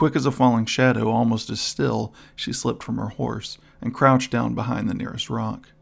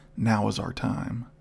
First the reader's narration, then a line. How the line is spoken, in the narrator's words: whispered Adeline to her companion